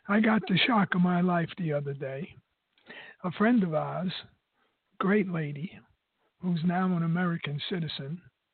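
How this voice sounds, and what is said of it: Hoarse, froggy voice. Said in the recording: “I'm a little frog in my throat, forgive my voice”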